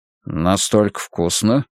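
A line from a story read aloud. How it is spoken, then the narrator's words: Quiet question. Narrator (Russian): тихо спросил диджей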